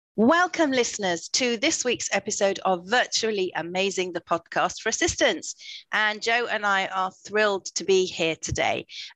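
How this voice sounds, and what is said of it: Slightly croaky voice. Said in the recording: “you may be able to hear from my voice that I'm a little bit croaky today... my one-year-old grandson decided to generously share his cold with me”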